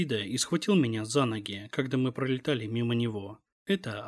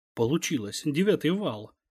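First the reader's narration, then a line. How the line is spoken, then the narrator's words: Exclamation. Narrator (Russian): воскликнула Маша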